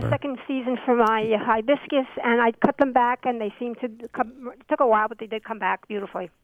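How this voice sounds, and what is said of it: New York accent. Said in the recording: “I'm a nut for accents. I'm picking off uh, either Brooklyn or Buffalo. ... I'm from New York City.”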